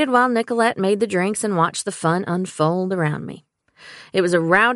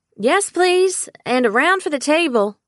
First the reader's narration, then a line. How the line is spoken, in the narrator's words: I yelled